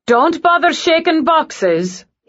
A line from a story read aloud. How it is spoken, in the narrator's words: he called out